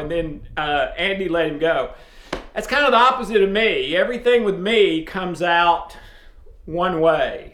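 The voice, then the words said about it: Southern East Tennessee accent. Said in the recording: “Wow, your accent... obviously I'm from the South, Tennessee... in a very small town in East Tennessee... I've tried to change my accent”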